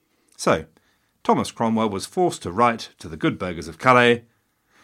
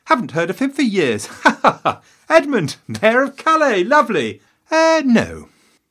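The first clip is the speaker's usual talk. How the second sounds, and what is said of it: High-pitched voice. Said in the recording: “Henry apparently had a surprisingly high voice for a big man.”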